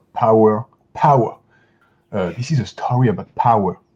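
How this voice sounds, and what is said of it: Imitated British English accent. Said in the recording (French): “l'accent britannique ... rêve de parler avec cet accent, j'en suis évidemment incapable ... Pardon pour mon accent anglais”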